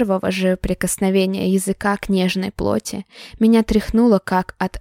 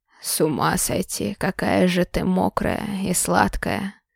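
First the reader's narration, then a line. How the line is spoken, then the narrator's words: Hoarse. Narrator (Russian): Хрипло произнес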